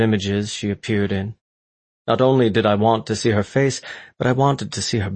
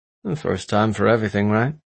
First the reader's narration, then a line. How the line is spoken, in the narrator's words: He sighed